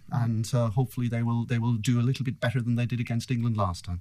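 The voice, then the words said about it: Irish accent. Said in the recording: “You can possibly tell from my accent that I'm cheering for the guys in green. ... The Irish.”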